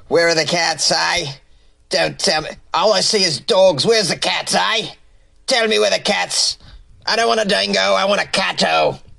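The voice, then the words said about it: Weak put-on Australian accent. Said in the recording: “I just wanted to use my Australian accent. It's not very great”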